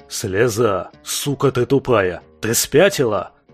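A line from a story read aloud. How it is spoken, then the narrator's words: Howled like wounded boar. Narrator (Russian): Раненым вепрем взвыл гвоздь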